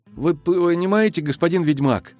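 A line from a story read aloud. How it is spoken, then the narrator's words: Trembling young voice. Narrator (Russian): дрожащим голосом подтвердил его догадку юноша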